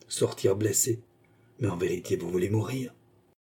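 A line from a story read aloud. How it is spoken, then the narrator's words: Quiet. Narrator (French): dit tout bas Philippe à son adversaire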